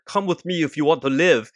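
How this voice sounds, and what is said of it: Weak put-on Austrian accent. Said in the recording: “That's a very nice Austrian accent right there. ... It's not very good. It's not my best accent.”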